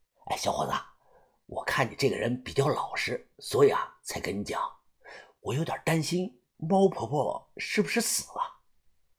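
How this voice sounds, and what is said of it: Quiet, hushed voice. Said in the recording (Chinese): “小声的”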